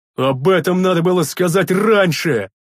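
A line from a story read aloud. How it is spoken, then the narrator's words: Barking big man. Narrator (Russian): рявкнул здоровяк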